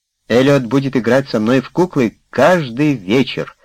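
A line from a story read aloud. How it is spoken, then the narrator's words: Joyful announcement. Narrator (Russian): радостно сообщила Герти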